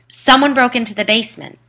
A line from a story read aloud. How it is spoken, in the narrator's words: he yelled back